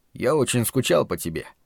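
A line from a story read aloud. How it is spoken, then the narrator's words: Quiet. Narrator (Russian): тихо сказал я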